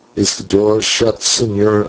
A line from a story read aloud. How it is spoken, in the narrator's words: I asked